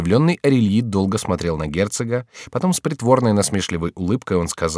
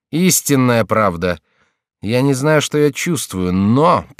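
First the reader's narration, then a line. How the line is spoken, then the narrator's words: Gloomy. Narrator (Russian): прибавил он мрачно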